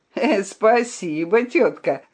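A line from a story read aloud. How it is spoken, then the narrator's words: Laughing. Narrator (Russian): засмеялся цыган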